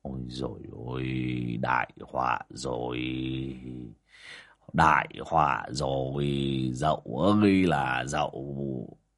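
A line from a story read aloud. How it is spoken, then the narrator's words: Dazed muttering. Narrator (Vietnamese): bác Vó đờ đẫn cả người mà lẩm bẩm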